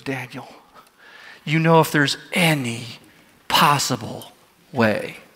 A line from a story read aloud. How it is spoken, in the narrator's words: he whispers